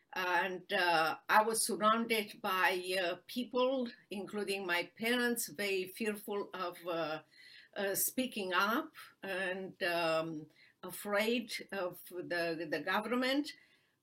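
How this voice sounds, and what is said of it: Romanian-accented English. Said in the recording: “I hope people recognize by my accent that I'm not a Texan ... you have a beautiful accent ... I was born in Romania”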